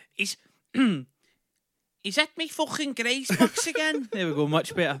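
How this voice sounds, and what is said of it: Put-on character voice. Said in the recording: “I'm doing a voice”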